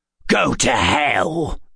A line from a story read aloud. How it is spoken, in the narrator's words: It spat